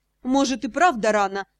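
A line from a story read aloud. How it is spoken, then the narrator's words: Snorting. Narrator (Russian): хмыкнул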